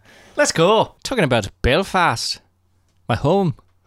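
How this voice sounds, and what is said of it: Put-on Irish accent. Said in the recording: “is going to speak only in an Irish accent.”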